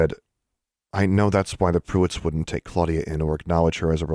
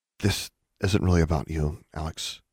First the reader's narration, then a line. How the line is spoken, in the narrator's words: Anna said quietly